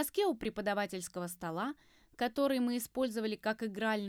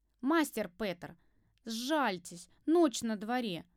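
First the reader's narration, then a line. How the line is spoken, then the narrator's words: Groaning. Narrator (Russian): простонала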